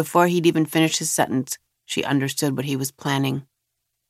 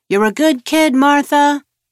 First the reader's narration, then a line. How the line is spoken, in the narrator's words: Enoch shouting